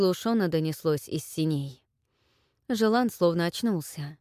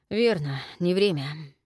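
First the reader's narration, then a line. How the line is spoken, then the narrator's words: Muffled. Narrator (Russian): глухо проговорил Жилан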